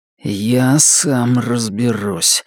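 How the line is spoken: Low grim voice. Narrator (Russian): сказал Норрис низким и мрачным голосом

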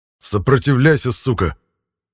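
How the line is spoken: Angry snap. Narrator (Russian): Зло бросил я

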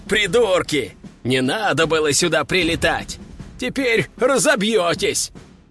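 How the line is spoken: Laughing loudly. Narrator (Russian): Он продолжал хохотать

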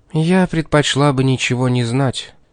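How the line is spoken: Tired. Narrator (Russian): устало произнесла Кэролайн

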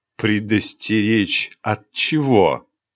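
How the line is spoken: Slightly mocking question. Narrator (Russian): чуть насмешливо спросил темный король

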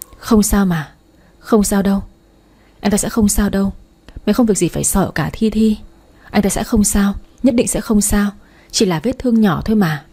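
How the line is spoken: Anxious muttering. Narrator (Vietnamese): miệng lẩm bẩm

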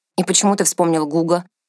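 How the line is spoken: Irritated question. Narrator (Russian): раздраженно спросил Ансельм

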